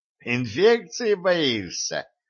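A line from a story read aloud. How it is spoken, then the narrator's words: Gnome giggling. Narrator (Russian): хихикнул гном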